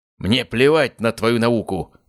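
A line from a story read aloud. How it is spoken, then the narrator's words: Barking. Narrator (Russian): рявкнул Гаспар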